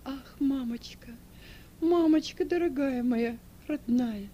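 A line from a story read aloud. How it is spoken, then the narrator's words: Sobbing. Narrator (Russian): рыдая говорила Эльва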